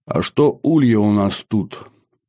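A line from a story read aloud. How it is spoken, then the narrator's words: Tired question. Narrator (Russian): устало спросил я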